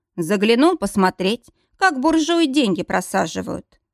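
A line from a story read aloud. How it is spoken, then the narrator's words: Snorting chuckle. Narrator (Russian): хмыкнул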